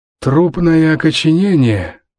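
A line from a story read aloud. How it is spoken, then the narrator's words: Wheezing. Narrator (Russian): прохрипел Саймон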